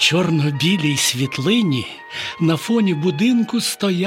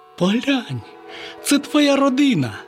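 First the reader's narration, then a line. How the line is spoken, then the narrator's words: Exclaiming. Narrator (Ukrainian): Славко вигукнув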